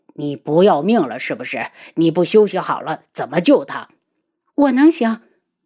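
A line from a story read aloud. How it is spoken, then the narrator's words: Angry. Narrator (Chinese): 漫天妖晕怒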